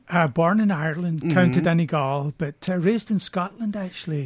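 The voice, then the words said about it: Mixed Irish and Scottish accent. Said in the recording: “my accent is kind of a mix of the two”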